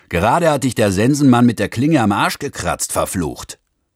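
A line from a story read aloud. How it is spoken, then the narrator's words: Driver bellowing. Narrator (German): Der Fahrer bremste, schob den Kopf aus seinem plattnasigen Fahrzeug und brüllte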